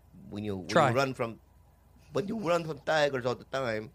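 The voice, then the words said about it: Attempted Nigerian accent. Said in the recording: “I don't know how to do a Nigerian accent. ... That's the exact same accent you do for like everything.”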